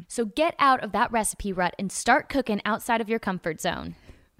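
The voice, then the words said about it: Put-on Southern American accent. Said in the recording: “you just had a southern accent there”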